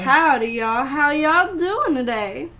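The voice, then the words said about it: Forced southern US accent. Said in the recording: “Can you talk in a southern accent? ... You're forcing it.”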